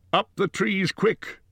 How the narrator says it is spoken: cried Gandalf

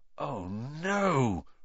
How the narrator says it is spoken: Ron gasped

